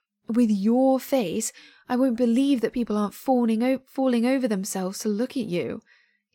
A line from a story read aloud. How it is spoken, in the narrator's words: he says, and the vestiges of laughter tag along the edges of his words